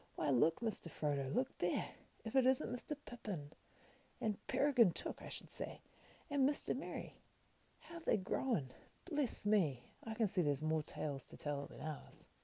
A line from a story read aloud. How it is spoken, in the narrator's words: He exclaimed